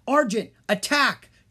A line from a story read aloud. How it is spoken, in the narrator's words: Jean yelled